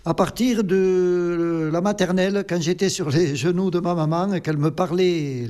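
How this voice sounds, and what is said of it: Occitan regional French accent. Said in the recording (French): “Vous avez un petit accent quand même ... j'ai l'accent du pays ... Ça fait partie de l'Occitanie, l'accent”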